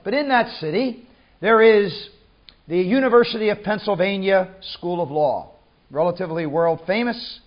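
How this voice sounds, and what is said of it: American accent. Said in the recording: “you do not need to be a nuclear physicist to recognize by my accent that I come from another country. I was born in the city of Philadelphia, in the state of Pennsylvania, in the USA”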